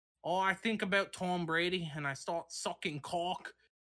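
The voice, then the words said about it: Put-on accent drifting into Australian. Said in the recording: “I don't know what that accent turned into. It turned into the fucking Australian accent”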